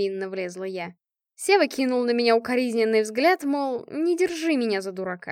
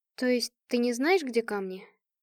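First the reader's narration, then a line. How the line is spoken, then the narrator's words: Sighing. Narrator (Russian): Сева вздохнул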